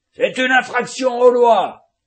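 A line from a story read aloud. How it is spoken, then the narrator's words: Thundered. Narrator (French): tonna le colonel Aureliano Buendía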